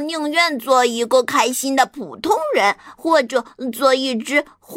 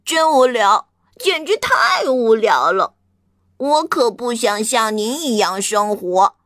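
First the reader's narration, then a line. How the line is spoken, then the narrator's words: Lamenting. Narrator (Chinese): 青蛙哀叹道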